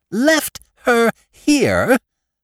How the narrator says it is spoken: cried

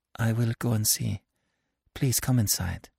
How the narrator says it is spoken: But she mastered herself, and said in a low voice

